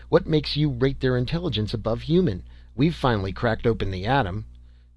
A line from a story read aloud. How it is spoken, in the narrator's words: snapped the captain